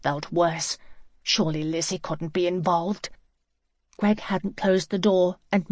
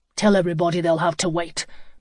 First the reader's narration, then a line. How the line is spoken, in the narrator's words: Matt said crossly